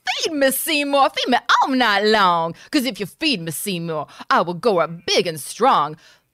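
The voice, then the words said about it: Crazy cartoonish plant character voice. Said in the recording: “putting on that crazy voice, it is the voice of Audrey 2”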